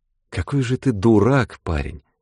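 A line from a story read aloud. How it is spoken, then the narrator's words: Sad, simple. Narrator (Russian): Грустно и просто сказала она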